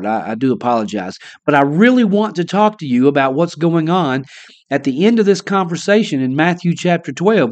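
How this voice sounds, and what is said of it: Slightly weak voice. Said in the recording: “My voice is a little weaker. I have a cold.”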